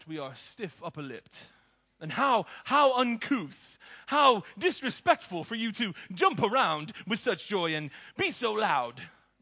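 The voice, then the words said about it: Deliberately bad British accent. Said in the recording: “That's a terrible British accent”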